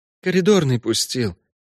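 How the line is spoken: Whisper. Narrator (Russian): прошептал Лимон

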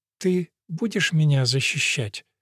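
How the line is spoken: Forced little-girl voice. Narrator (Russian): спросила она тоненьким голоском маленькой девочки, что далось ей с трудом

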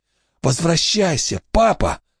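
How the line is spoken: Whispered. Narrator (Russian): шептал Уэйн дергающемуся трупу

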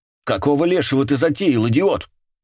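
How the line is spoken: Angry shout. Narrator (Russian): сердито крикнула на него Мэтт

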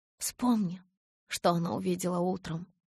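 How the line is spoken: Barely audible interruption. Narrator (Russian): едва слышно перебила я

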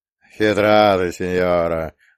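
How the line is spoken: Laughing loudly. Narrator (Russian): захохотал бандит

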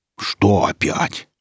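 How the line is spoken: Grumbling man. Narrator (Russian): проворчал сталкер

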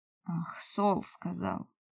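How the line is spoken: Sigh. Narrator (Russian): Вздохнул Улик

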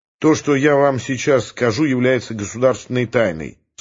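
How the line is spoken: Stern official tone. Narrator (Russian): строго официальным тоном сказал Ермильев

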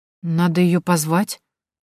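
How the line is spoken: Hesitant suggestion. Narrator (Russian): неуверенно предложила Тоня

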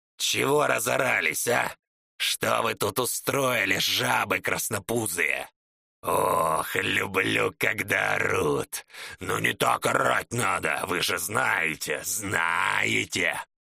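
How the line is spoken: Growl. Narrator (Russian): Прорычал Чернолицый

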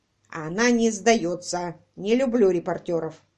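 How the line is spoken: Cop grumbling. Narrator (Russian): проворчал коп

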